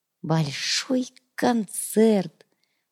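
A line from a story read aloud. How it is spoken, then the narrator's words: Whispered. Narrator (Russian): прошептала Ива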